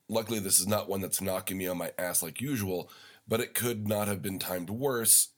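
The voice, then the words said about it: Deeper, congested sick voice. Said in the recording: “it's dropped down about half an octave, which means I'm sick... hopefully I'll be able to breathe through my nose”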